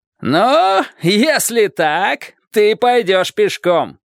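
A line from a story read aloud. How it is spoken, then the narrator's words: Shout. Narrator (Russian): крикнул человек на острове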